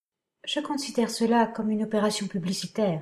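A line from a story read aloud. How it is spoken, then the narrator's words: Murmuring. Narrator (French): murmura-t-elle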